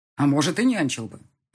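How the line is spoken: Snapping. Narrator (Russian): огрызнулся он

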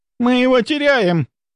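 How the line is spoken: Nurse shouting. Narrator (Russian): кричала медсестра

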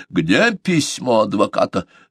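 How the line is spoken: Barked. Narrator (Russian): рявкнул он

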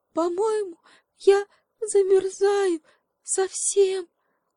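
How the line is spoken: Sobbing. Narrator (Russian): всхлипнула обезьянка

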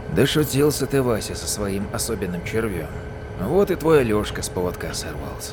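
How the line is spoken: Quiet mutter under breath. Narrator (Russian): тихо проговорил себе под нос Ермолаев

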